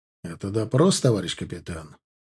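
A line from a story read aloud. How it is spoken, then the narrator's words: Stern question. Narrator (Russian): спросил я таким строгим тоном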